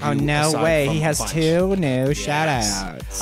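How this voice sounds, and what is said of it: Mocking, effeminate put-on voice. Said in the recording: “that's why I'm doing that voice ... I got really effeminate there for a minute.”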